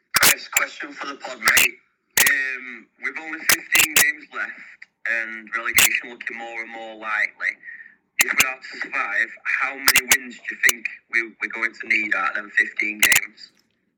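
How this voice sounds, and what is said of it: Northern English accent. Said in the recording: “A great, great accent as well. I love his Northern accent.”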